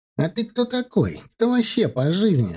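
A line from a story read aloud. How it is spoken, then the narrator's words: Squeaky boy's voice. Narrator (Russian): запищал пацанчик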